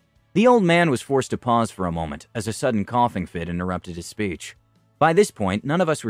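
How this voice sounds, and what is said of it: Usual voice. Nothing is said of it.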